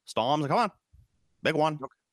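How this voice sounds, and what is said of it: Put-on Maine accent. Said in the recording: “My standard Maine accent is basically based off the line "storms are coming,"... That's my Maine accent.”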